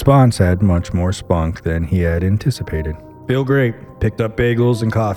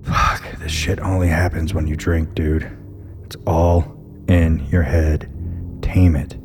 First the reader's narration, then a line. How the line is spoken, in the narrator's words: he whispered to himself